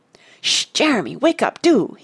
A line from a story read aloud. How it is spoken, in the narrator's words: he hissed